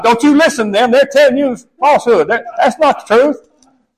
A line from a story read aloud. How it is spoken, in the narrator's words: he'd holler out to his wife